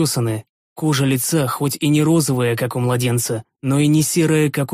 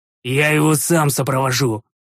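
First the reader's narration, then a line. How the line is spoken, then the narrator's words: Furious growl. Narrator (Russian): рыкнул я, приходя еще в большую ярость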